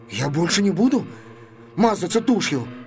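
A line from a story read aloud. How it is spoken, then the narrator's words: Timid babbling. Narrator (Russian): пролепетал он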